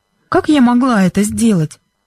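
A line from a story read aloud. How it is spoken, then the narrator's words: Asked innocently. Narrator (Russian): невинным голосом спросила Бренда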